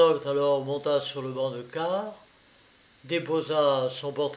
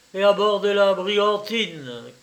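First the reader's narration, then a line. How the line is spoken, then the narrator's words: Booming shout. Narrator (French): cria Kernok d'une voix de stentor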